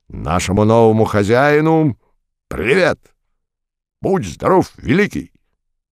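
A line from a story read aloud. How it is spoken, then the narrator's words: Shouted in chorus. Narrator (Russian): гаркнул экипаж в 4 глотки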